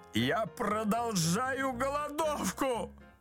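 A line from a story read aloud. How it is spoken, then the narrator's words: Miserable shout. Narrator (Russian): закричал несчастный муж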